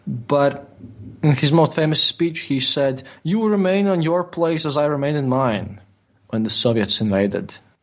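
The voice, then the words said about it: Non-native English accent. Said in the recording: “my English pronunciation is not that great because English is not my native language. ... my accent”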